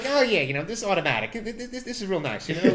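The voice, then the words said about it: Put-on American-Italian accent. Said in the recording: “Your American accent. ... That was American-Italian. It worked. It's fine. It's good. ... It's good enough.”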